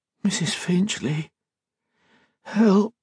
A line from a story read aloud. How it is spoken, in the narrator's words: whimpered